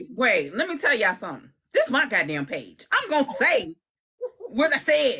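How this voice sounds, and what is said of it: Usual voice. Nothing is said of it.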